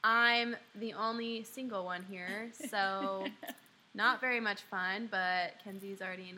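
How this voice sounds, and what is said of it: Usual voice. Nothing is said of it.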